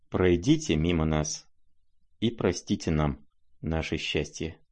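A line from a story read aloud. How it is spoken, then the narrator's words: Quiet voice. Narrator (Russian): проговорил князь тихим голосом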